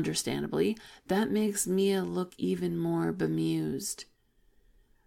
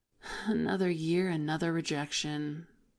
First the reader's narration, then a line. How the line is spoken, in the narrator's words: she says, sighing dramatically